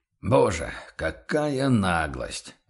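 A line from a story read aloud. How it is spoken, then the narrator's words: Stunned mutter. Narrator (Russian): ошеломленно пробормотал торговец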